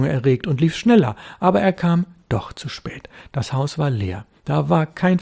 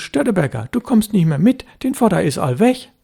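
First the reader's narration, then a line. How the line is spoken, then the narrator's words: Called out. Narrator (German): Jan Husten, der Elbfischer, rief ihm zu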